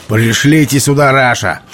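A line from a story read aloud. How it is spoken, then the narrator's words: Shout. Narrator (Russian): крикнул он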